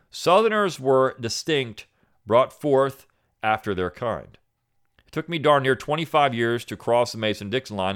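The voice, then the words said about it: Southern American accent. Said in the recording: “I spoke with a southern accent”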